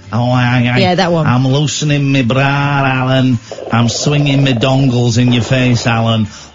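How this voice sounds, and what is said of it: Mock put-on accent. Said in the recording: “that mock calf accent”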